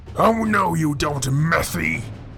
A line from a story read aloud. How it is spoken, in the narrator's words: shouted Iapetus